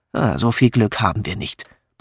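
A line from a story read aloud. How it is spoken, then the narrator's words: Grumbling. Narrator (German): brummte Patrick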